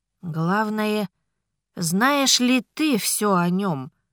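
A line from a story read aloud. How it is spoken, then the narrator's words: Sigh. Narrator (Russian): вздохнула мама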